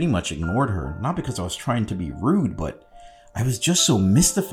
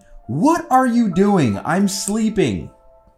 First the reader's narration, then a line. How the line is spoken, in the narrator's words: Angie instantly shot out of bed and yelled at me